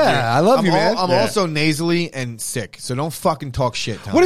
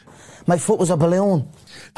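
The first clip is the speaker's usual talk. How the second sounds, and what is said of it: Poor Irish accent impression. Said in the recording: “That is the worst Irish impersonation. ... I've never heard from an Irishman.”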